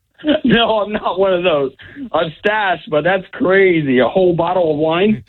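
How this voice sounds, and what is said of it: Florida accent. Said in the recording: “You almost sound like you're Canadian. ... That's a Florida accent you got.”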